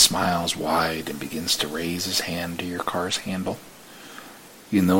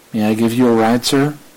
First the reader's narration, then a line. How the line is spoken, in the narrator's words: you shout out to him